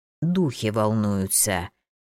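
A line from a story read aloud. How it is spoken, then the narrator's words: Low creaky voice. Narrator (Russian): заговорил он скрипучим низким голосом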